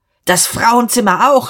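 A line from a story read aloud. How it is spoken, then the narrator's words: Screaming. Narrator (German): schrie Dieterich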